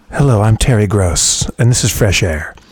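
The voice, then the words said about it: NPR radio voice, Terry Gross. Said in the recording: “Do an NPR voice.”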